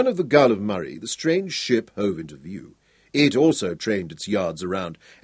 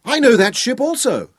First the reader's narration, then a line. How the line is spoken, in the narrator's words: Hal shouted on the wind